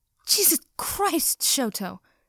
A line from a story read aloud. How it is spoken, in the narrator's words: Mina gasped